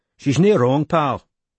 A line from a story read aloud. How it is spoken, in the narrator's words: panted Barclay